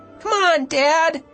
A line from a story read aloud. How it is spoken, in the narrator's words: I pleaded